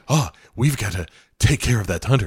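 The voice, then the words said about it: Imitated voice with creepy breathing. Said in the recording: “My impression of Jack Palance comes entirely from Without Warning, ... which is just say anything and then breathe creepily after.”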